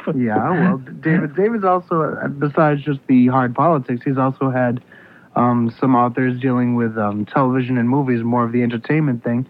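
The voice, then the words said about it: Congested voice from a cold. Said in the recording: “I've got a bit of a cold. If it sounds like I do, I certainly do.”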